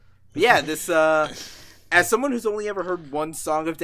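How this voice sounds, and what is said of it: Usual voice. Nothing is said of it.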